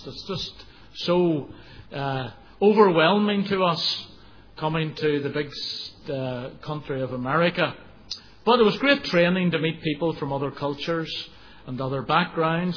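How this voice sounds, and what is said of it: Northern Irish accent. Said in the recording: “people had difficulty understanding my accent ... Northern Ireland accent”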